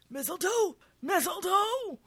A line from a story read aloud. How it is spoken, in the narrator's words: Brad, outside, in the front yard, wheezes